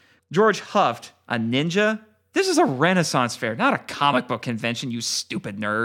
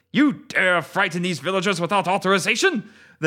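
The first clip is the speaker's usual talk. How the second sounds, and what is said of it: Gruff Japanese-sounding accent. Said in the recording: “The ninja shot back in a gruff Japanese-sounding accent.”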